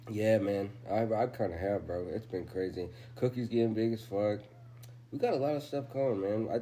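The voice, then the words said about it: Tired-sounding voice. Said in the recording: “You can hear it in my voice. I'm just a little tired.”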